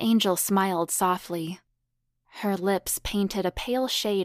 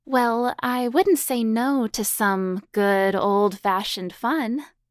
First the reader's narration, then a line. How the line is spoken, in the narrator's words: she replied playfully